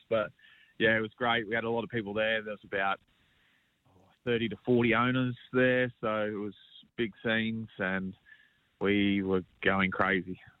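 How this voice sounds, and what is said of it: Rough, worn-out voice. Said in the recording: “I'm still a little bit dusty at the minute, as you can probably hear in my voice.”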